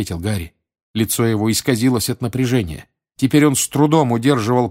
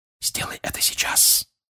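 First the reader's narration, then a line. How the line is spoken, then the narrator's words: Whisper, father. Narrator (Russian): прошептал отец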